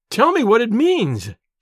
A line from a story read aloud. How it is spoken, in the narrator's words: she cried despairingly